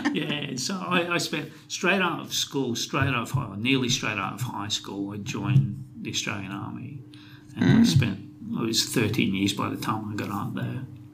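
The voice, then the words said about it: Scottish accent. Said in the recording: “Because you've got an accent. ... it's a Scottish accent.”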